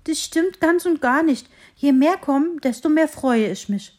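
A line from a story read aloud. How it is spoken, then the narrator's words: Relieved little tree calling out. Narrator (German): rief das Bäumchen erleichtert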